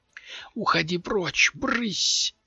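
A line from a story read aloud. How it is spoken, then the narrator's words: Desperate whisper. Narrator (Russian): прошептал он в отчаянии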